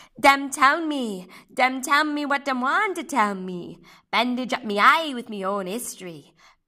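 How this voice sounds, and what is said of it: Terrible put-on Caribbean accent. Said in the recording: “Poems in Terrible Accents ... So you're going to see a Caribbean accent.”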